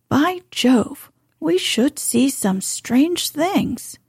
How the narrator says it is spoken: cried Lord Warburton

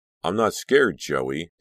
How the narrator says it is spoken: Danielle replied sharply

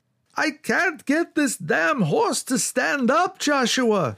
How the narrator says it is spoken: shrieked Yakov

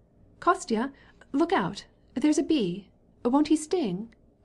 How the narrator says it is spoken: cried Dolly, defending herself from a wasp

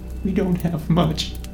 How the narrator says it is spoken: she whimpered

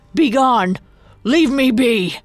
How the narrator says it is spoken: The driver yelled at them, voice cracking

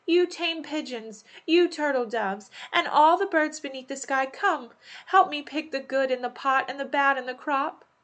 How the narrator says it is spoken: She cried

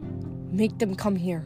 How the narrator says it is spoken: Hazel muttered over her shoulder

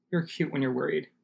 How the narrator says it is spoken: she muttered

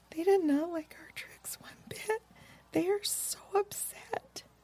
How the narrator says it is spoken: Lisa Ann became very sad suddenly and whispered softly

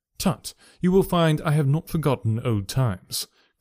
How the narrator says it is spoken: cried Mr

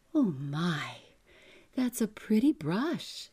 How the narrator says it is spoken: she exclaimed

